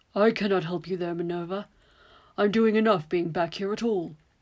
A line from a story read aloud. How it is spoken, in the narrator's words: Horace grumbles to himself